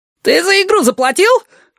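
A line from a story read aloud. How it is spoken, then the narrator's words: Shrill squealing notes. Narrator (Russian): В голосе его прорезались визгливые нотки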